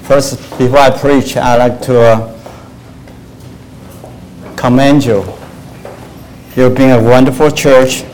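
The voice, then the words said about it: Speaks English with an accent. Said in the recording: “I'll go slowly in the beginning so you can get used to my accent.”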